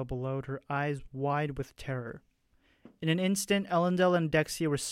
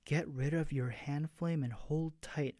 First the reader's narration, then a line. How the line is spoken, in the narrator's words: Elendil commanded, her voice barely audible